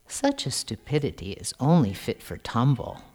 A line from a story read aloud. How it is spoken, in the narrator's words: murmured the chief minister